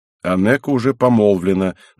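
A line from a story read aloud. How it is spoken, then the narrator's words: Grumbling man. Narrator (Russian): начал ворчать мужчина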